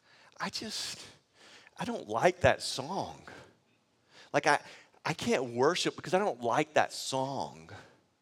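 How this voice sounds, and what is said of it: Whiny voice. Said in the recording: “it's kind of a whiny voice ... it's a little bit of a whiny voice”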